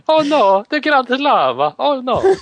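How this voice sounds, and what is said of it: Exaggerated put-on Italian accent. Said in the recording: “speak in a racist Italian accent”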